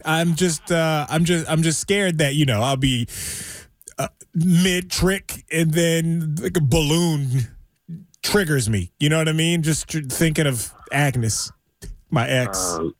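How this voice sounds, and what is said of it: Emotional, upset voice. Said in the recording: “I'm getting emotional again.”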